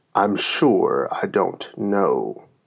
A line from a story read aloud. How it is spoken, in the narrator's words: the lion growled out